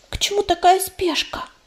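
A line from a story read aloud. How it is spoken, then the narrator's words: Barely audible young whisper. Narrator (Russian): еле слышно шепнула юная целительница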